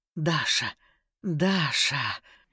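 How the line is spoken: Strained, barely restrained whisper. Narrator (Russian): шептал Ян, кажется, сдерживаясь из самых последних сил

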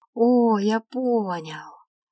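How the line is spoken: Sudden drawl. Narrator (Russian): Неожиданно протянул Мираэль

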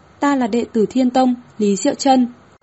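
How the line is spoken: Woman, raised voice. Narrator (Vietnamese): vị nữ tử mặc đạo bào kia cao giọng nói

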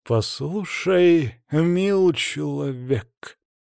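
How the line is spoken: Growling. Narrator (Russian): прорычал Сварри

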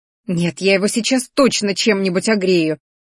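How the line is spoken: Growl. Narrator (Russian): рыкнула Ди

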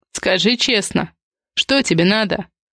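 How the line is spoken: Weary question. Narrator (Russian): Устало уточнил он

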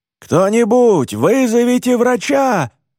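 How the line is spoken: Man screaming. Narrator (Russian): вопит мужчина

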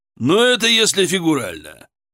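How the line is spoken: Chuckling. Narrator (Russian): хохотнул

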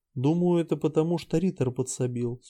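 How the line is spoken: Calm reply. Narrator (Russian): спокойно ответила Нотти

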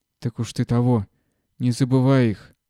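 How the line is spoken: Hoarse wheezing. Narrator (Russian): хрипел Маркушка

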